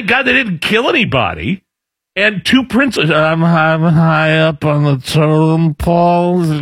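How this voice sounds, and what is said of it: Joe Biden impression. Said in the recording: “That's a pretty good Biden impression”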